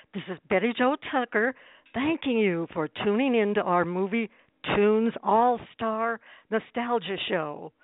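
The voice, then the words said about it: Hoarse voice from laryngitis. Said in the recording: “as you can probably tell, I'm struggling with a bit of laryngitis”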